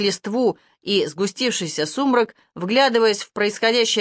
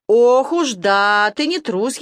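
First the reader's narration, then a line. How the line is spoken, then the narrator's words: Sarcastic drawl. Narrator (Russian): язвительно протянул Балабан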